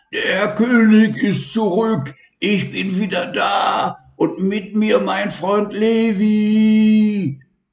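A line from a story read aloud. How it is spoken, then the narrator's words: Loud roar. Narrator (German): brüllte laut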